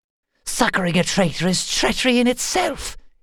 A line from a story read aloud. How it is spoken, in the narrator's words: hissed Willa